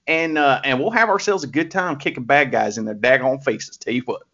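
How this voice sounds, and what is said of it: Put-on Southern US accent. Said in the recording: “Southerners with that kind of accent ... I know he's putting on a voice”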